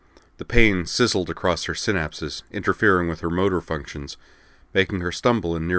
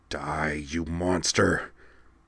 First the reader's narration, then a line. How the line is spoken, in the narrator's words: she snarled at him in Gamelon, through lips bloodied by the bleeding of her nose